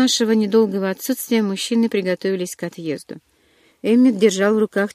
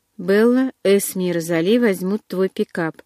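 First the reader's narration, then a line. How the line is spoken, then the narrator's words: Plain. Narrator (Russian): сказал Карлайл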